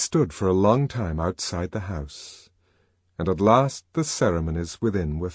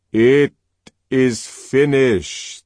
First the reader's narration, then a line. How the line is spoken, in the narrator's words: said old Mitsima in a loud voice